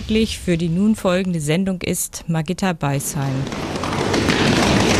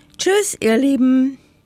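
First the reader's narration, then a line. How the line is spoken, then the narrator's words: Calling out. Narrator (German): rief das Häckslein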